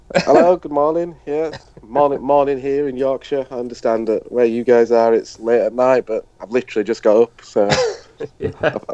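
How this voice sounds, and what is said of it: Slow, sleepy Northern English accent. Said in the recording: “Apologies for my slightly half asleep accent, but Northerners always sound this slow.”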